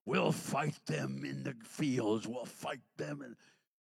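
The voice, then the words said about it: Poor Winston Churchill impression. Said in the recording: “I'm reminded of Winston Churchill and his famous speech ... that wasn't a very good impression, but I did my best”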